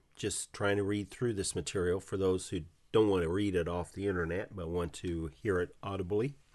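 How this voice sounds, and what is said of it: Rough voice, sounds sick. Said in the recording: “my voice is bad, it's because I'm just recovering from a cold”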